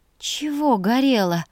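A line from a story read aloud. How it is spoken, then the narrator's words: Breathless exhale. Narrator (Russian): выдохнула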